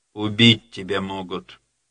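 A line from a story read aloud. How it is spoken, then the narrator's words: Muffled, dull. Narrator (Russian): глухо сказал Андрей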